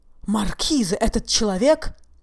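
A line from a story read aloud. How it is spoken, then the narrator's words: Two men exclaiming together. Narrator (Russian): В один голос воскликнули оба лейтенанта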